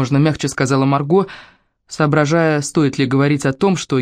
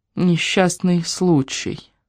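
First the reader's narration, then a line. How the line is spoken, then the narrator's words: Thoughtful, unfamiliar repetition. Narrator (Russian): задумчиво повторила она, словно произносила это словосочетание впервые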